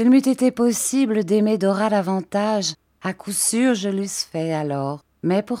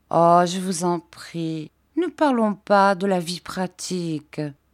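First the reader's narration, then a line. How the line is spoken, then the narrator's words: Caressing tone. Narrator (French): me dit-elle d'un ton caressant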